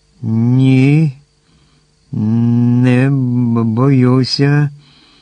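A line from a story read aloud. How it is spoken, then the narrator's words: Trembling mumble, bear. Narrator (Ukrainian): тремтячим голосом пробурмотів ведмідь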